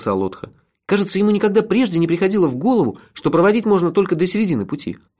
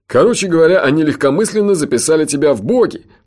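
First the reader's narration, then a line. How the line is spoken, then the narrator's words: Laughing. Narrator (Russian): рассмеялся Джуфин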